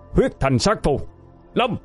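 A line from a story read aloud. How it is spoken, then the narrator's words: Roaring incantation. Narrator (Vietnamese): Bảo gầm lên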